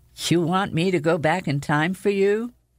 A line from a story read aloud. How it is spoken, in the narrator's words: I sighed